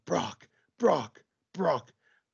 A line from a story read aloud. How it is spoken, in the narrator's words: the entire crowd starts chanting